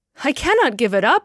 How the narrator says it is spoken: cried

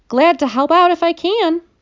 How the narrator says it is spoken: I squeaked

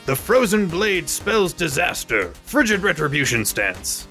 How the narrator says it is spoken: he is going to yell out

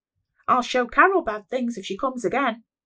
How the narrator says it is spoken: I shouted irrationally

